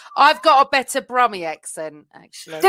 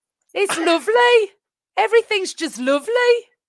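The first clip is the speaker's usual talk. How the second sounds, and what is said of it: Poor put-on Birmingham accent. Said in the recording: “I thought that was quite shite for a Brummy accent”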